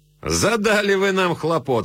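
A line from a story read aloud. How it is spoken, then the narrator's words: Laughing. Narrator (Russian): сказал он, смеясь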